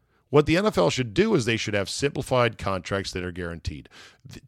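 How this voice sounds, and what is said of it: Usual voice. Nothing is said of it.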